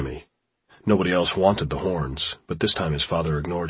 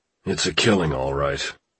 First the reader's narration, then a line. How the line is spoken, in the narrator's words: said Jimmy's father in a disgusted tone